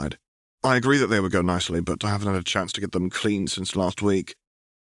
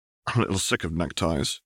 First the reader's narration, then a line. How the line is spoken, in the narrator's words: Harry said with a bit of a chuckle